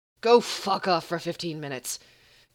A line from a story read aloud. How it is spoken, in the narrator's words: Gabriel growled